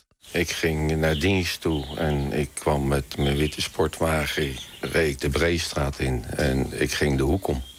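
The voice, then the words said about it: Strong Hague Dutch accent. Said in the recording (Dutch): “een stevig Haags accent”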